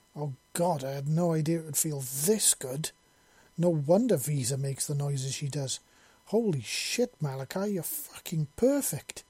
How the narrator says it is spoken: moaned in a loud voice

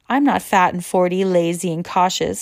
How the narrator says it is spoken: she cried

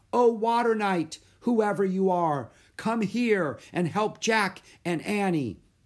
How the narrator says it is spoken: She raised her head toward the sky and shouted

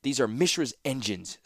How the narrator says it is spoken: snapped Tanos, a new steel in his voice

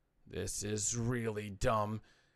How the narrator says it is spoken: he muttered

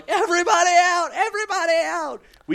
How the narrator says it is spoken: we're just yelling

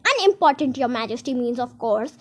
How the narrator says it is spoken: he said in a very respectful tone

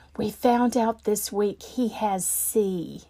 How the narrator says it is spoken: she began to whisper

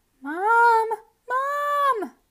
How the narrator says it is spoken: Jasper screamed

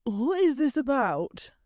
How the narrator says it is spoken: Theo asked with a yawn

